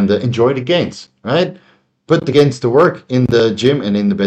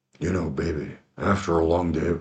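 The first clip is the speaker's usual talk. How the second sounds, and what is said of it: Very deep, low crooning voice. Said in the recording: “that's my best Barry White impression... I had a Barry White voice... deepened my voice quite a bit”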